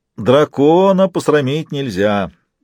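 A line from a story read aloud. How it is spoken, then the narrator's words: Distant, laughing declaration. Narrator (Russian): Принц Эйрион в отдалении засмеялся и заявил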